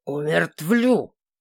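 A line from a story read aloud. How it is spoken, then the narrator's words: Low irritated growl. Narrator (Russian): исправился, перейдя на глухое раздраженное рычание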